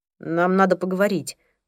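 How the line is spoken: Grumble. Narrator (Russian): пробурчал Пол

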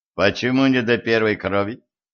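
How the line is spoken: Stern question. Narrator (Russian): строго спросил Денис

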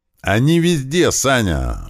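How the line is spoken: Yelling. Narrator (Russian): орал мне Кирпич

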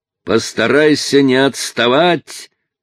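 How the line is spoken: Shouted over shoulder. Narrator (Russian): крикнул Чарли через плечо

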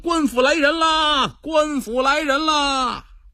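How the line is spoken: Shouting loudly. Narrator (Chinese): 有人大喊

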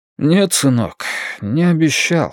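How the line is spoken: Sigh. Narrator (Russian): вздохнул Веденеев

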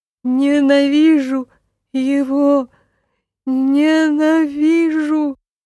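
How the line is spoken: Sobbing. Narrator (Russian): рыдал Полтергейст

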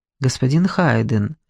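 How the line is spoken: Quiet, respectful. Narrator (Russian): тихо и с уважением заговорил тот

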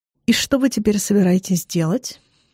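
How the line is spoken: Quiet question. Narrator (Russian): спрашивает негромко

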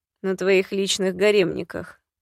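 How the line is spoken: Quiet suggestion. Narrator (Russian): предложил тихо Нагулит

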